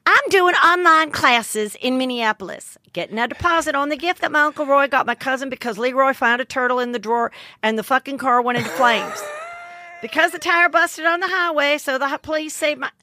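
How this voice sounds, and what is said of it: Put-on southern accent. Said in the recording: “in a southern accent”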